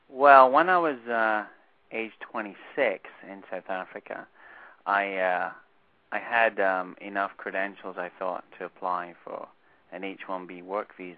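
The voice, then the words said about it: Slight Scottish accent. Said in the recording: “I hear the accent, a little Scottish accent”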